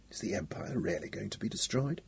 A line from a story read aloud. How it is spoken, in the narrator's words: Baldy asked softly